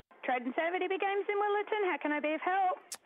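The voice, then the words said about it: Formal phone-answering voice. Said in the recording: “That's my I'm official, you know, answer on the phone voice.”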